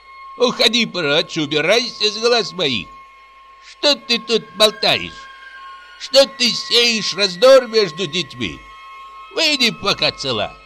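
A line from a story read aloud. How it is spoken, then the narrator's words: Sharp scolding shout. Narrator (Russian): прикрикнула на нее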